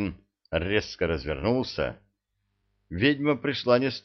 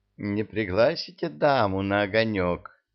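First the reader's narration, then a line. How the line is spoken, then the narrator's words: Tender girlish cooing. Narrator (Russian): проворковал нежный девичий голосок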